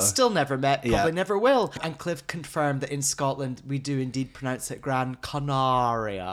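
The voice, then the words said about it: Half-posh Scottish accent. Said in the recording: “your half-posh Scottish accent”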